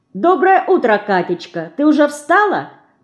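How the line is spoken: Cheerful greeting. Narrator (Russian): весело сказала Динка

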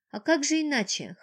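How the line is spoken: Chuckling. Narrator (Russian): хохотнул он

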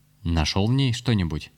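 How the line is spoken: Stern question. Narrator (Russian): Рез строго спросил своего помощника

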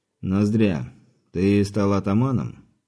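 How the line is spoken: Calm but unsettling. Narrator (Russian): Сказано вроде спокойным тоном, но от чего-то не по себе от этого голоса

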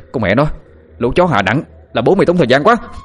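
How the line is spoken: Sudden shout. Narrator (Vietnamese): Bỗng dưng Sinh hét lên

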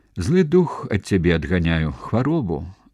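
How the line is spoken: Weak smiling voice. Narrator (Belarusian): слаба усміхнулася княгіня

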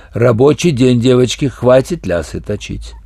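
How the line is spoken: Stern reminder. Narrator (Russian): она строго напомнила

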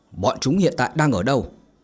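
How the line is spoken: Barked question. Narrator (Vietnamese): quát hỏi

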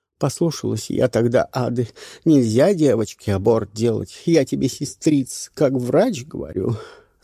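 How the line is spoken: Tearful. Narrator (Russian): сказала сквозь слезы

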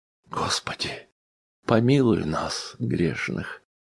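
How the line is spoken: Pious sigh. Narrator (Russian): вздохнул благолепный Сергей Сергеевич

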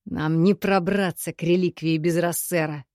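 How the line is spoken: Growl. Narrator (Russian): прорычал Кирино

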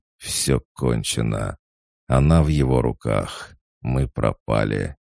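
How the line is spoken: Groaning. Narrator (Russian): Он простонал

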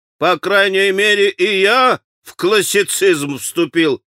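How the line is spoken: Sudden guffaw. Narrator (Russian): захохотал вдруг Митя

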